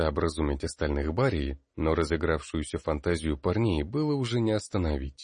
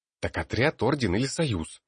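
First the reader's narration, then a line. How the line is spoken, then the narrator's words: Irritated fed-up question. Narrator (Russian): раздраженно переспросил Ботлер, которого эта лишняя болтовня порядком уже достала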